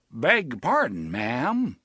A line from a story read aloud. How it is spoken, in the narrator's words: drawled the aw-shucks voice of Jimmy Stewart